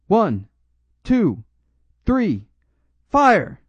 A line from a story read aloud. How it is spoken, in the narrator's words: I immediately shouted